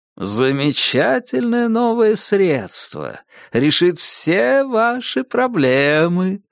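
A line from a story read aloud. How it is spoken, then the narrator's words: Sing-song drawl. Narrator (Russian): нараспев протянул доктор Хиббард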